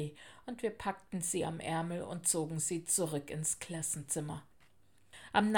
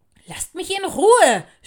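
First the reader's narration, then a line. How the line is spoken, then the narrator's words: Angry scream. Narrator (German): schrie Fimala wütend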